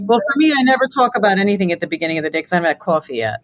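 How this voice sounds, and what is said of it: Philadelphia New York accent. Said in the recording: “I'm a Philly New Yorker, so I have all the bad accents... I got the hard A's and the long O's.”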